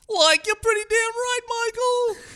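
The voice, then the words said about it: Cartoon character voice. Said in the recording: “I can't not do that voice. It's so fun.”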